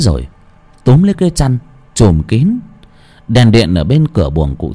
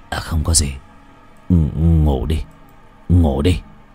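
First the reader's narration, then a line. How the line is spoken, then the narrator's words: Stammering old man. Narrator (Vietnamese): Lão lắp bắp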